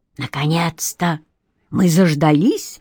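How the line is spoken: Whispered. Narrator (Russian): шепнул Аполлон

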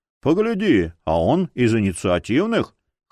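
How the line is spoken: Amused snort. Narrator (Russian): хмыкнул один другому

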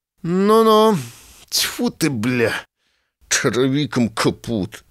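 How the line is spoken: Irritated grumble. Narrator (Belarusian): раздражнёна буркнул Лапіцкі

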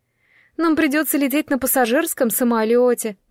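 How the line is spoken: Moaning. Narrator (Russian): простонала Айви

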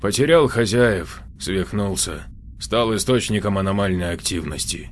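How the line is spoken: Sighing. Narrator (Russian): вздохнул Иоанников

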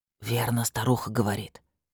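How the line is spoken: Whispered in ear. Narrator (Russian): шепнул на ухо Года

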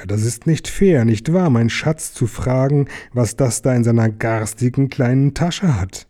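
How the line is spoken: Hissed. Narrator (German): zischte er

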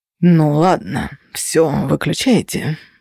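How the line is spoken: Sighed. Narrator (Russian): вздохнул Феникс

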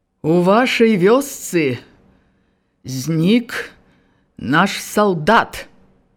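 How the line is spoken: Clear, ringing, carrying voice. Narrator (Belarusian): Пачаў ён па-руску чыстым, як з літой медзі голасам, ніколечкі не павысіўшы яго, але так, каб чуваць было самым заднім

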